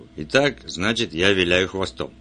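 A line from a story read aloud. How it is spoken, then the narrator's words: Gloomy. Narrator (Russian): Он мрачно сказал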